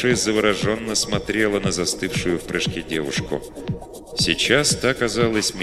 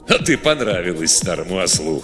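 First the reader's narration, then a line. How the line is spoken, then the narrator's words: Chuckling laugh. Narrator (Russian): хохотнул Годдер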